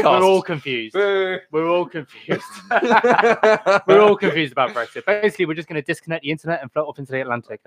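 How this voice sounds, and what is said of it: British accent. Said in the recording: “We're both from the UK. ... I don't know if you can tell from the accents, very British.”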